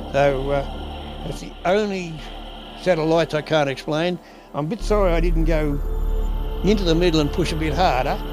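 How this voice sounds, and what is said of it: Strong accent, hard to understand. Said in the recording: “the man's accent may make it difficult to hear in certain parts”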